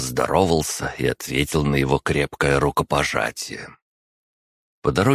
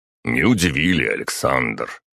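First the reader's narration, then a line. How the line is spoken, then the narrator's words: Deep bass voice. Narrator (Russian): пробасил Мурашов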